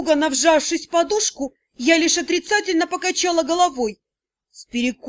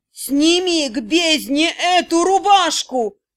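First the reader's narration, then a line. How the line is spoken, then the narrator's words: Frenzied growl. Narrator (Russian): прорычал неожиданно невменяемый Тьер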